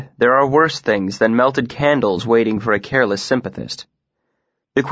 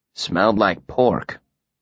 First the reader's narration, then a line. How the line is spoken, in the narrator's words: said grimly